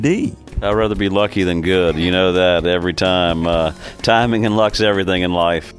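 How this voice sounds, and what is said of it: Noticeable regional accent. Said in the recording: “You can tell by my accent”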